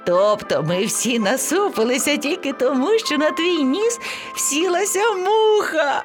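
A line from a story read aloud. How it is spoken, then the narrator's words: Laughing. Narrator (Ukrainian): Сміялося левеня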